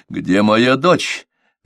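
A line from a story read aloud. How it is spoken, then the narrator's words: Exclaimed. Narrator (Russian): воскликнул он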